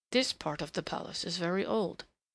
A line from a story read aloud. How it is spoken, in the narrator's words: he murmured over his shoulder